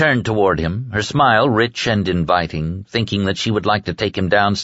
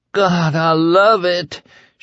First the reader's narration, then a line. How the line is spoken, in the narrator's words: she moaned